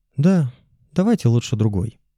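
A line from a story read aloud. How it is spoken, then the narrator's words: Sighing. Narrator (Russian): вздохнул Витя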